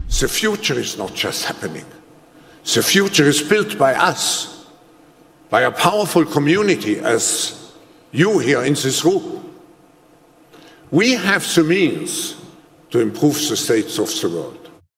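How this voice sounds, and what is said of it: Thick, dramatic accent. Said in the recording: “with a very thick, dramatic accent, which makes it really weird and creepy”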